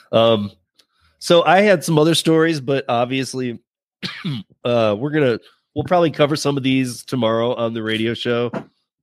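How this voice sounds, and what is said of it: Strained, failing hoarse voice. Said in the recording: “my voice is going”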